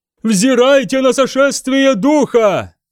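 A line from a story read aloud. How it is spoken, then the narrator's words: Yelling. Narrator (Russian): завопил брат Ассер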